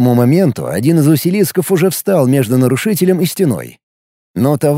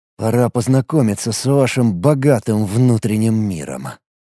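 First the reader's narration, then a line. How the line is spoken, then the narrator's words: Muttered. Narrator (Russian): пробормотал Алекс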